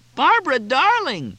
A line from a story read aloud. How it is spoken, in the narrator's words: yelled Cindy